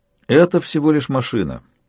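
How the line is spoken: Level voice. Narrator (Russian): ровным голосом ответил Ханасу

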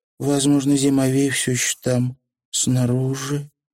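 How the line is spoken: Mutter. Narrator (Russian): пробормотала Тиффани

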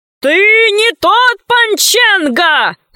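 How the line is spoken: Shouting admiral. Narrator (Russian): закричал адмирал

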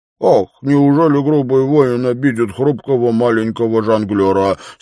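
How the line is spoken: Mock childish tone, laughing. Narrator (Russian): спросил он с подчеркнуто детскими интонациями, отчего оба тут же снова зашлись в хохоте

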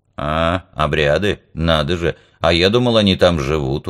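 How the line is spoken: Grumble. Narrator (Russian): проворчал Топок

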